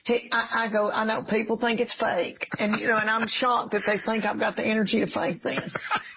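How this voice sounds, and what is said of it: Tennessee Southern US accent. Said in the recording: “your accent ... I'm from farming people in Dark Fire Tobacco in Middle Tennessee ... East Tennessee ... a little bit of Texas ... a true Tennessee native accent ... very Welsh”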